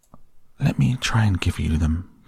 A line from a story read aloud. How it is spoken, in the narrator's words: said the Rat softly